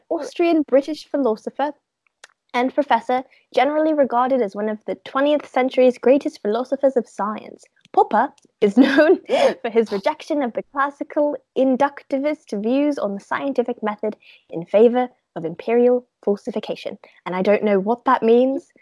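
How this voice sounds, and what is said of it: Put-on British accent. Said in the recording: “Still talking in a British accent.”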